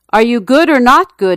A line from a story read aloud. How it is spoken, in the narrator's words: he yelled